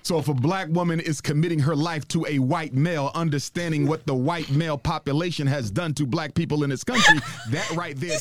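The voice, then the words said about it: Imitates another person's voice. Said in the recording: “That's literally the accent that you're doing.”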